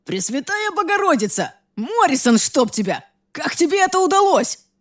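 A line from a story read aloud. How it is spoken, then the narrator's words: Exclaimed. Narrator (Russian): Воскликнул Райан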